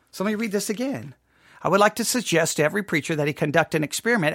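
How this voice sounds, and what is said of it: Texas accent. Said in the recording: “Your stupid Texas accent comes through.”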